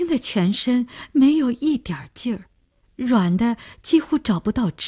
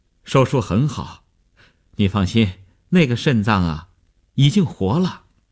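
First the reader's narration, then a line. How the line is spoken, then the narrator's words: Relieved, smiling. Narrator (Chinese): 医生放心地笑笑说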